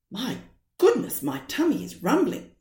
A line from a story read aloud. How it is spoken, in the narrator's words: said Mother Tortoise